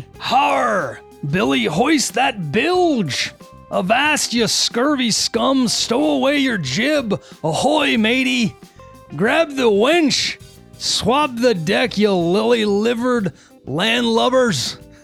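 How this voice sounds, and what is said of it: Pirate character voice. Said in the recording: “I don't know that I really know how to talk like a pirate.”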